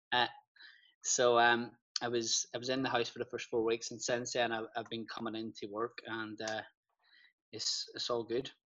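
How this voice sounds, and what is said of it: Northern Irish Ballymena accent. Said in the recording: “That's not a Belfast accent though... It's a Ballymena accent... It's a hard one to hide.”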